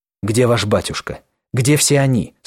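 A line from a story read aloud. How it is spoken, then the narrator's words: Hurried question. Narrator (Russian): спросил он торопливо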